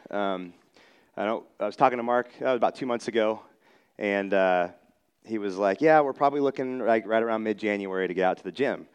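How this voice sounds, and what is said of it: Slightly hoarse voice. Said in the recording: “I lost my voice ... my voice would just squeak really loud ... If you hear me a little hoarse, that's why.”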